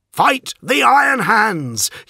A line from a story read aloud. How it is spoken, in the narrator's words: yelled Falk